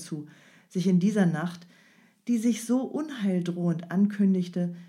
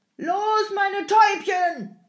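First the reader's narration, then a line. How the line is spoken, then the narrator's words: Coachman bellowing. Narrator (German): brüllte der Jemschik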